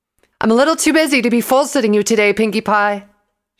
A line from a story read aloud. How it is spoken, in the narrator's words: she shouted